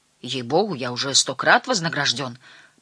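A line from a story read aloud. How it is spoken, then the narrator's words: Muttered. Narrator (Russian): пробормотал Верзила Джек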